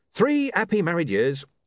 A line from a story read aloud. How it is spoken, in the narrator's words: said Arthur cheerfully